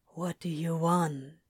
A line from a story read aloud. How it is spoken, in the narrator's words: Crowley whispers in his ear